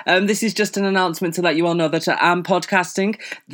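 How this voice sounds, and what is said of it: Put-on clear podcast voice. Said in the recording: “This is my fake podcast voice because apparently I really need like a clear voice.”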